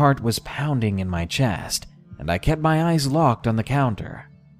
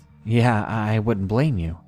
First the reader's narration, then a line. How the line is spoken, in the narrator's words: I nervously chuckled and just replied with